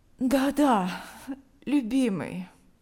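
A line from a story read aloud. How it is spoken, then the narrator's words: Sleepy reply. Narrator (Russian): она сонно ответила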